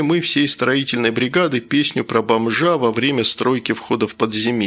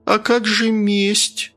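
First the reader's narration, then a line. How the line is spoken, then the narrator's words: Uncertain question. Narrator (Russian): уже как-то неуверенно спросила Мария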